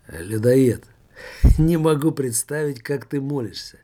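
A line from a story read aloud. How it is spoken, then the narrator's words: Hoarse laughter. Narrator (Russian): Жак хрипло расхохотался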